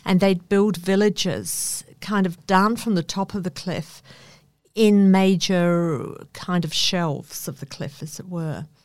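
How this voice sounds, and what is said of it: New Zealand accent. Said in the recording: “as probably you can tell, I have a New Zealand twang”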